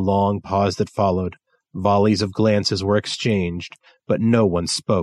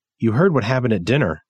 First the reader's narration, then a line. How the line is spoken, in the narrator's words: Trip said